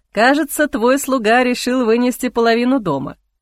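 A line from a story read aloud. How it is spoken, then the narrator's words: Snorting. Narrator (Russian): хмыкнул Ихран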